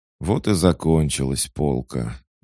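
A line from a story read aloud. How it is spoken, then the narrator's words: Sigh. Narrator (Russian): вздохнул я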